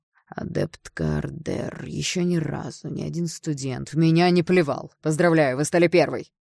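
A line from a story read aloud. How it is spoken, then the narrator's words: Displeased grumble. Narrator (Russian): проворчал он недовольным голосом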